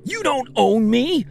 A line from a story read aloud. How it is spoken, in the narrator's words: I screamed